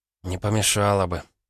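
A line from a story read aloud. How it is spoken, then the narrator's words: Sighing. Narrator (Russian): Ванда вздохнула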